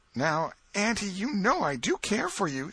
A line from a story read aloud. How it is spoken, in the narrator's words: said Tom